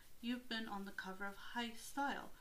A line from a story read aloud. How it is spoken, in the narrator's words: she gasped